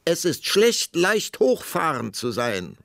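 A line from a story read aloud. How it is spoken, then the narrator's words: Queen calling after, determined. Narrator (German): rief die Königin ihm nach, denn sie war entschlossen, das letzte Wort zu behalten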